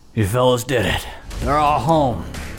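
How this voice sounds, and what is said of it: Put-on character accent. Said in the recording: “my Bill Cooper accent ... That was pretty close.”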